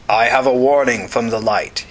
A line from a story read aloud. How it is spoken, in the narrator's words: he intoned